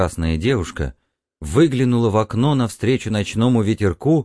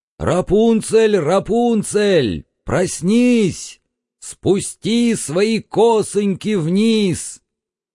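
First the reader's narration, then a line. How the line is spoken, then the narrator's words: Shout. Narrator (Russian): крикнул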